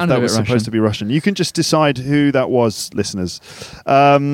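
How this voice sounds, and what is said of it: Usual voice. Nothing is said of it.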